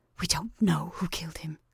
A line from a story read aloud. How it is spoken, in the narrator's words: whispered Mrs